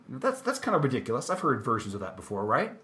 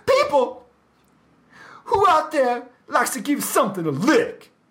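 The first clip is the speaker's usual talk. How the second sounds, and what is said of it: Imitates another person's voice, badly. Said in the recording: “completely awful Paul Stanley impersonation”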